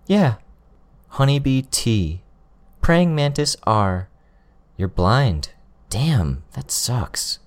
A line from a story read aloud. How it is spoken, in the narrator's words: she said